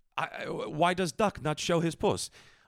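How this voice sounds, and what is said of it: Put-on Russian accent. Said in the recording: “I'm trying to do Russian so I don't do an offensive Indian accent.”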